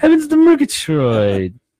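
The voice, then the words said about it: Snagglepuss cartoon voice impression. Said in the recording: “That's a really good impression of Snagglepuss.”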